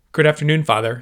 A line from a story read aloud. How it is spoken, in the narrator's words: said Ion